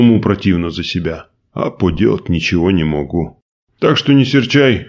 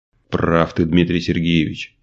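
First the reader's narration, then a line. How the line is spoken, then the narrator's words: Sighing. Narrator (Russian): вздохнул Николай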